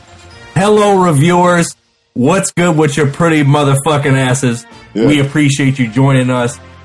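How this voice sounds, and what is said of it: Excited yelling. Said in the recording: “I'm yelling at you, because I'm excited”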